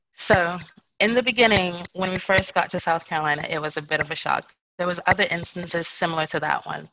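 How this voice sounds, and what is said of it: British accent. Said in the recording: “I had this British accent”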